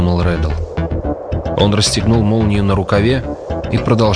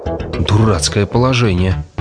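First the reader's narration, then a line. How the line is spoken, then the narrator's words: Plain. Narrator (Russian): сказал он вслух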